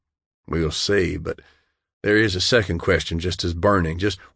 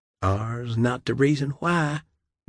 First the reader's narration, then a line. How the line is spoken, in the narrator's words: Dale said softly